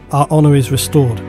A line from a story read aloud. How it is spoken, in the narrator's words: said Uriel